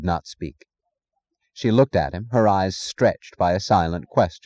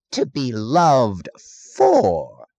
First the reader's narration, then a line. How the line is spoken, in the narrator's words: he said, his voice grating with mockery and righteousness